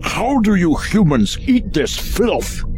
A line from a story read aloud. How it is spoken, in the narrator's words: Clarf grimaced and bellowed